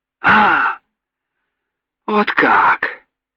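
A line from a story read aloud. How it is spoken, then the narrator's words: Exclaiming. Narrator (Russian): воскликнул Юрик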